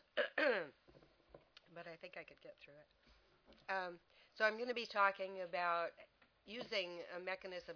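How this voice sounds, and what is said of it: Congested voice from a cold. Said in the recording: “I've got a little bit of a cold”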